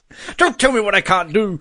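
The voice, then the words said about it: Poor impression of a TV character. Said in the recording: “that's a terrible Locke impersonation.”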